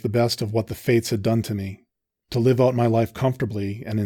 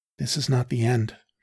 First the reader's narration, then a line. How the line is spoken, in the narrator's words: she said, her voice barely a whisper above the fire